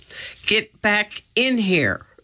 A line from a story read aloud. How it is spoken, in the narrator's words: cried Jack